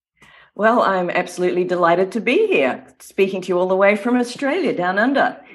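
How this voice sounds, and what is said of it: Slight mid-Atlantic Australian accent. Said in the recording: “sounds like you have a little bit of an accent. I couldn't quite place it. ... it's increasingly becoming a mid-Atlantic accent”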